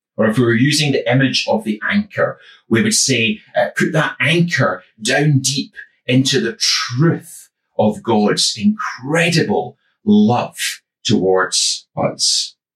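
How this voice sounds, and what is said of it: West of Scotland accent. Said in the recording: “as you may still be able to tell from my accent. I'm from the west of Scotland”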